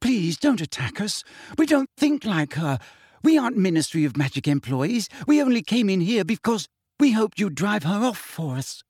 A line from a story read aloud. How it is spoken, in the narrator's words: said Hermione breathlessly